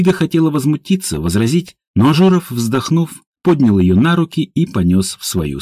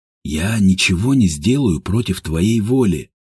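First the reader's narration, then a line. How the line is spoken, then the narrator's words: Hoarse promise. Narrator (Russian): хрипло пообещал Степан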